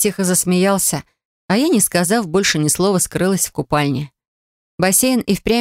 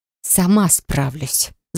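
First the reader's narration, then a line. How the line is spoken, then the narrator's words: Angry hiss. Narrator (Russian): зашипела рассерженной кошкой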